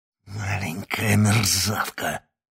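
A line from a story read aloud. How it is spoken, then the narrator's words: Hissing. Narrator (Russian): прошипел тень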